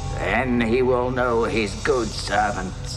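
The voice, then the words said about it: Big, rich, scary hammy voice. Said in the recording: “big, rich, scary voice. ... Massive slice of ham.”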